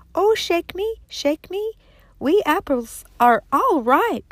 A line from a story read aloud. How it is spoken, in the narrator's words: the apple tree, which cried